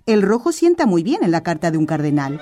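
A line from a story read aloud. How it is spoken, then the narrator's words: Postmaster said laughing. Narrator (Spanish): dijo riendo el administrador de correos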